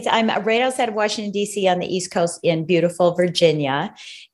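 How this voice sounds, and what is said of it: American accent. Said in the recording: “if you can't tell from my accent, I'm from the United States”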